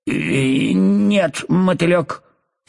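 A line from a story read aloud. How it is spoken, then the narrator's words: Angry reply. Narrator (Russian): сердито ответила гусеница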